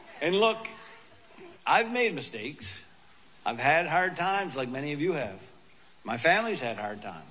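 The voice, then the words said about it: Funny regional accent. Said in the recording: “with a funny accent, if you haven't noticed already”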